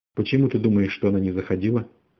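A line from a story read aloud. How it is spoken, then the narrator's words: Plain. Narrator (Russian): спросил Мейсон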